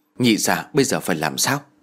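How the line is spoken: Quiet question. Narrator (Vietnamese): Tôi nhỏ giọng hỏi

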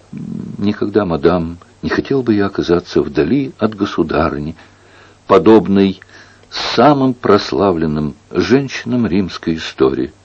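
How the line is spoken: Sobbing, stammering speech. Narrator (Russian): А Навара всхлипнул, потом, запинаясь, проговорил

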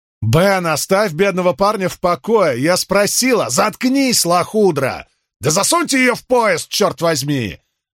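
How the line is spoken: Yelling. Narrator (Russian): Заорал он на двоих Грамли

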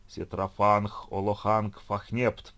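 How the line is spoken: Thunderous roar, echoing. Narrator (Russian): проревел чей-то громовой голос, разнесшийся по залу раскатистым многократным эхом

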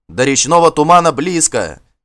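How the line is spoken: Encouraging shout. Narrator (Russian): кричал Гельд, стараясь подбодрить своих людей

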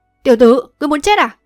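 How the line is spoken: Angry old man's bark. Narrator (Vietnamese): Lão tức giận quát

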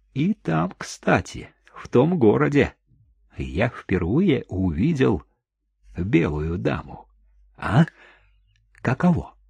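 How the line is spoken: Barely audible addition. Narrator (Russian): Чико едва слышно добавил

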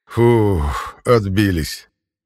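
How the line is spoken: Clearly relieved. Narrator (Russian): с явным облегчением произнес капитан

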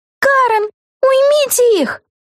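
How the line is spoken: Howling cry. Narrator (Russian): взвыла Вега

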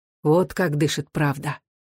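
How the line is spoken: Quiet, thoughtful. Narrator (Russian): негромко и вдумчиво сказал

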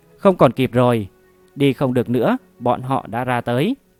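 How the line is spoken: Despairing voice. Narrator (Vietnamese): Tần Vương một mặt tuyệt vọng, nói

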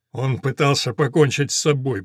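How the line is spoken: Lieutenant's muttered reply. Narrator (Russian): бормочет в ответ лейтенант

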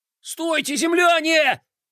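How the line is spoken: Yelling. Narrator (Russian): завопил Бублик

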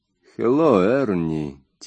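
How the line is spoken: Quiet. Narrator (Russian): тихо сказал он

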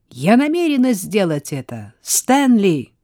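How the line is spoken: Loud laughing exclamation. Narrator (Russian): Сара расхохоталась и, глядя на огромную люстру над головой, громко воскликнула

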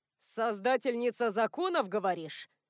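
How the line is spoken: Smirking grunt. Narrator (Russian): хмыкнул Адам

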